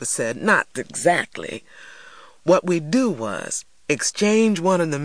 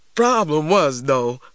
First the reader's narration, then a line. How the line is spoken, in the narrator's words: laughed Uncle Hammer